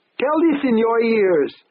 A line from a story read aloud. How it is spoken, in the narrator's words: the maitre d' screamed furiously